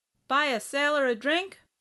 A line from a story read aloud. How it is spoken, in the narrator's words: She smiled at him, called out